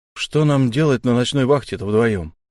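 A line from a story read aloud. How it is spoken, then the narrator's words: Muttering. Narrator (Russian): буркнул Фари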